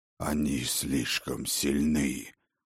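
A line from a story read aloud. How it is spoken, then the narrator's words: Hoarse wheeze. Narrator (Russian): прохрипел отец дружин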